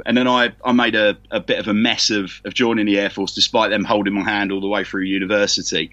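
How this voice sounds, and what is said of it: London accent. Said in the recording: “I'm a Londoner, as you can probably tell from the accent.”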